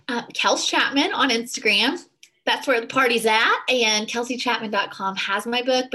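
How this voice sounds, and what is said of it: Southern American accent. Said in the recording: “I love your accent ... people like from the South”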